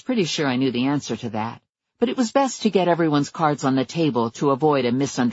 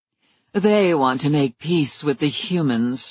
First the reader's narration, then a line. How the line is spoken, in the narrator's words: she sneered